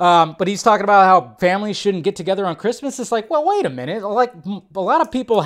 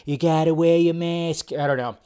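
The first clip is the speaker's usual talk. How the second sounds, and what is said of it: Imitates another person's voice. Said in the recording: “do a Fauci impression. I don't do a good Fauci impression.”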